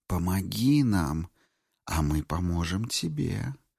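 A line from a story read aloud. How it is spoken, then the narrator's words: Whisper. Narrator (Russian): прошептала молния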